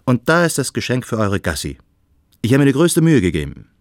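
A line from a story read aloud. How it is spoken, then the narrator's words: Cheerful call. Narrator (German): rief Freund Adrian aufgeräumt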